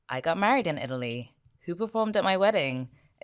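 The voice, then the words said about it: Terrible put-on American accent. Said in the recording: “Excuse the terrible American accent.”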